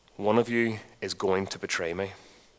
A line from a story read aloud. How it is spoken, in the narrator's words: with a big sigh, the master spoke these words